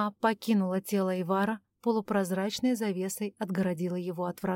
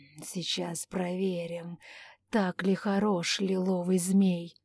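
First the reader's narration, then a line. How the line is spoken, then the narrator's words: Purring. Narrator (Russian): мурлыкал Анджей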